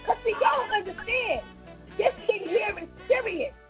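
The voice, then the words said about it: Yelling. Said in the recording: “why are you yelling?”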